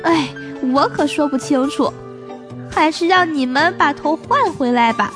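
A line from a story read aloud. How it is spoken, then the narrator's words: Old man sighing. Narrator (Chinese): 白胡子医生叹了一口气说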